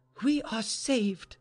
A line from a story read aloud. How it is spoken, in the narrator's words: she cried suddenly